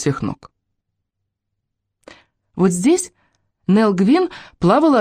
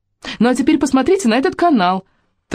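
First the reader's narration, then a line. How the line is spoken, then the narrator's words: Hurried. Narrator (Russian): торопливо добавила она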